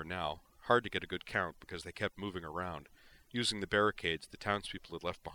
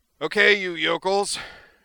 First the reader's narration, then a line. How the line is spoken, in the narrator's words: declared in a parade ground bellow